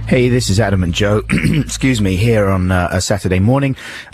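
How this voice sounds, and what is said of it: Congested, odd-sounding voice from cold. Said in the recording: “I'm speaking in a slightly odd way because I have a bit of a cold, so my voice has gone a bit wonkoid”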